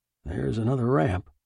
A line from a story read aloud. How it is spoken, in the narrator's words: Wass murmured